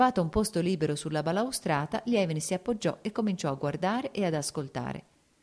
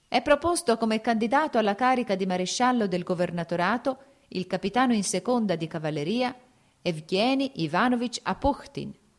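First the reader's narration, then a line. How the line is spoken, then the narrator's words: Shrill loud proclamation. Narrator (Italian): con voce stridula e alta proclamava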